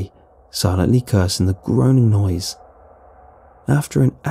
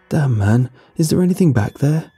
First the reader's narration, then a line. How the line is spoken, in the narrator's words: His voice was shaky, with barely concealed terror